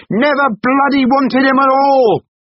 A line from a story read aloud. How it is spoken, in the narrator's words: bellowed, jumping to his feet